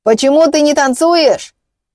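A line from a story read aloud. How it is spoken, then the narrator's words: Shouted reply. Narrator (Russian): выкрикнул он в ответ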